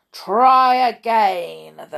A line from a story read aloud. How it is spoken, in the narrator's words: bear boomed